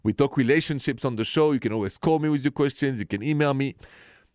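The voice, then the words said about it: French accent. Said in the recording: “This accent is straight from Paris.”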